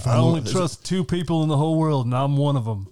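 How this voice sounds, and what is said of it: Nicolas Cage impression, Southern Alabama accent. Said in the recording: “Cage went to Alabama to study that accent.”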